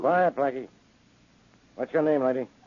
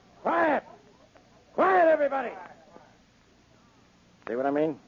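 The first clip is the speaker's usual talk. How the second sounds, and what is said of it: Loud shouting voice. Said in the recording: “if you lower your voice”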